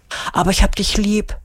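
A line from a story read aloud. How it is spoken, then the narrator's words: Whisper. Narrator (German): flüstert sie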